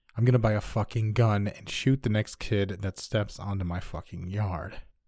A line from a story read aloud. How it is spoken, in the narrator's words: Beet red, coldly stated